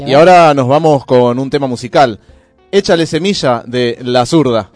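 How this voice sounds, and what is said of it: Radio announcer voice. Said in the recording (Spanish): “con voz de locutor otra vez”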